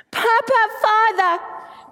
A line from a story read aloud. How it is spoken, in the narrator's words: Jesus cried